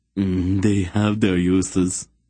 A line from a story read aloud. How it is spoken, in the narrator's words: the other said with a coarse laugh